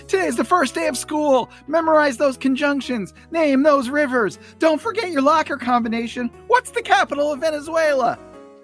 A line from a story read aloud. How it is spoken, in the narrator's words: She's now running and screaming